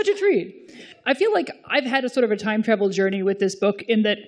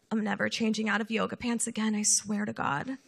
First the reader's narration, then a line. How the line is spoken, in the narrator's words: muttering to herself as she went